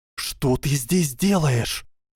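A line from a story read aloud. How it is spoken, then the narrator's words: Whispered yell. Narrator (Russian): завопила генерал Грейнджер, правда, шепотом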